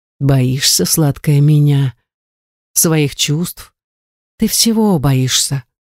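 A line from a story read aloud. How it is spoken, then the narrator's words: Quiet, slightly husky voice. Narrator (Russian): тихим голосом с легкой хрипотцой произнес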